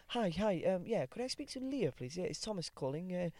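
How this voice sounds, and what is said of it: Put-on posh phone voice. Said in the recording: “your phone voice ... That's a very posh voice ... it's not my voice”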